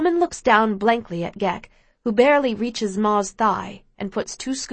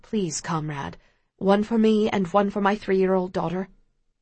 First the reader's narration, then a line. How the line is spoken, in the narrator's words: quietly says